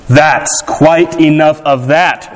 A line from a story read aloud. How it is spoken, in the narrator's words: the fat shopkeeper shouted